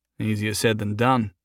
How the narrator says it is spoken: he murmured to himself

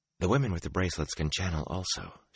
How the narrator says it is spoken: she replied, just as softly

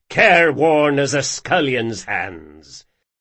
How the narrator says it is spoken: scoffed Bertrand

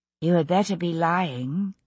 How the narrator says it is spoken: she said evenly

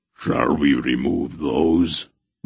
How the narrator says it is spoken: Barak growled

